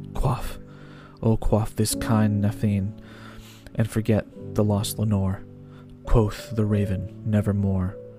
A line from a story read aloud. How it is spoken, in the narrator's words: he cries